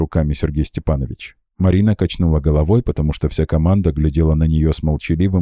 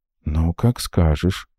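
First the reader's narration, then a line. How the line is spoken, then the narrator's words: Through gritted teeth. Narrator (Russian): процедила Лида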